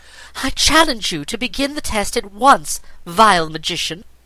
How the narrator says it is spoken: exclaimed Aquarain

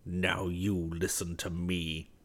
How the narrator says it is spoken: he muttered through his clenched teeth

